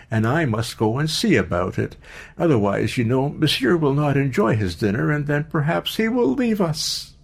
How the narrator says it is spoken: cried, laughing

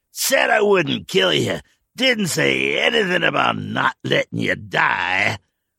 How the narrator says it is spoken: Harlan had said with a laugh

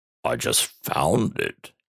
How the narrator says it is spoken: he said

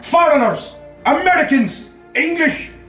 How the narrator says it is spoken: Collins shouted back

